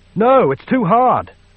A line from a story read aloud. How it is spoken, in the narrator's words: Frick cried